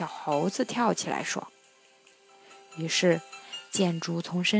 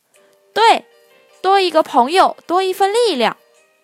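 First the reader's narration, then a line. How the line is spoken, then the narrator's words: Shouting in unison. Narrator (Chinese): 小兔子、小鸭子也齐声的喊道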